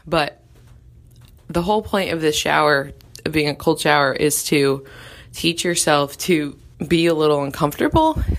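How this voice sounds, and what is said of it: Breathless speech. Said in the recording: “it is so cold that I'm out of breath.”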